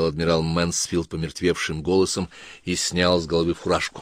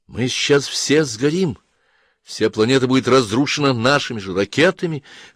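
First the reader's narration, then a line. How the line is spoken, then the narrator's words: Young officer exclaiming. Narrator (Russian): воскликнул кто-то из молодых офицеров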